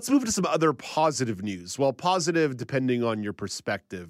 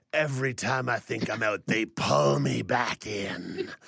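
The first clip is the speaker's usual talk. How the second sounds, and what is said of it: Poor imitation of another person's voice. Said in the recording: “terrible Al Pacino impression”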